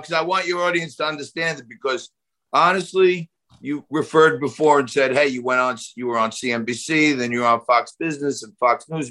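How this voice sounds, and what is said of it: New York accent. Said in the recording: “I don't want to get rid of my New York accent”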